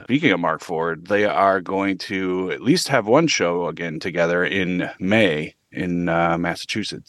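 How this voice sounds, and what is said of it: Voice not yet fully recovered. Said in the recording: “You can hear my voice is still not quite caught back up.”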